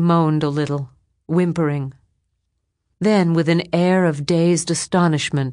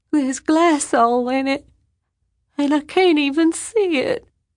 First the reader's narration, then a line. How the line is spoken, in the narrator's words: she said, whimpered